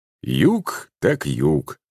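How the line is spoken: Agreeing professor. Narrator (Russian): согласился профессор

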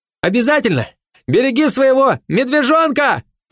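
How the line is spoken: Shouted. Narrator (Russian): крикнул волк

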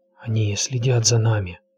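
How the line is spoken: Whispered. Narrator (Russian): шепнул он

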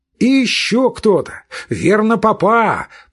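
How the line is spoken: Shouted. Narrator (Russian): прокричал Левин

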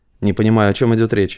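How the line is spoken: Dry. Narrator (Russian): сухо сказал Рыков

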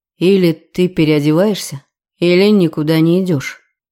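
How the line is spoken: Grim, uncompromising. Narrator (Russian): мрачно сказал он, и в голосе ни намека на возможность компромисса

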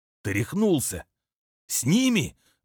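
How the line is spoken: Indignant whisper. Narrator (Russian): возмущенно зашептал первый

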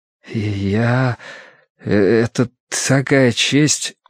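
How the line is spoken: Stammering voice. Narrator (Russian): услышал Тай свой заикающийся голос

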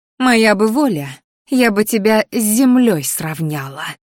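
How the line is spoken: Hissing. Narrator (Russian): зашипела она мне в лицо

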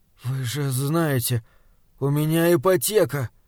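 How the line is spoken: Crestfallen objection. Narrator (Russian): упавшим голосом попытался возразить он

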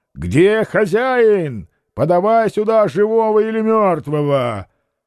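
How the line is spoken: Deep bass shout. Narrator (Russian): Петр закричал басом

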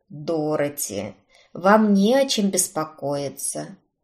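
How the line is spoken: Soft, gentle. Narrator (Russian): Мягко вымолвил он

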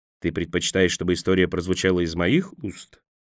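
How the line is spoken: Quiet question. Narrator (Russian): негромко спросил Мэг

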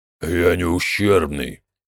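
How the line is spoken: Gloomy. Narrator (Russian): мрачно сказал Мектик

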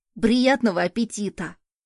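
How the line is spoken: Hungry child exclaiming. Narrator (Russian): воскликнул оголодавший ребенок

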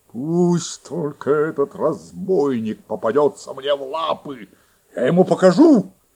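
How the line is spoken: Growling wolf. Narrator (Russian): зарычал волк

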